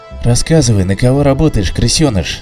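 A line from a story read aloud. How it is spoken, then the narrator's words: Quiet, chilling menace. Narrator (Russian): говорил Олдрик тихо, но от его голоса тысячи ледяных мурашек бегали по спине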